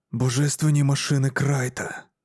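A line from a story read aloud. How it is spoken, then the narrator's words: Mutter. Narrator (Ukrainian): пробурмотів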